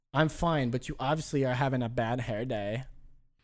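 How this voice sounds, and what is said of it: Imitates another person's voice. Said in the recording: “That's a really good Paul Rubens impression.”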